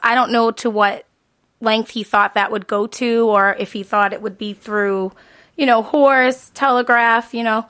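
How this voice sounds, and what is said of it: Boston accent. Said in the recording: “Don't let the Boston accent”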